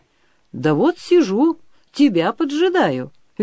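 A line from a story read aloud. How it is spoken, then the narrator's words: Cheerful reply. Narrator (Russian): весело отвечал молодой кочень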